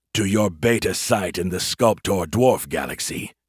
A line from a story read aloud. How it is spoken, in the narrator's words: Zovank growled